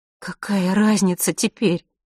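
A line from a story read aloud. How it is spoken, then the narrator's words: Sobbing. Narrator (Russian): всхлипнула Марина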